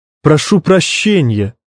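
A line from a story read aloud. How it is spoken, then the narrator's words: Forced out. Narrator (Russian): выдавил я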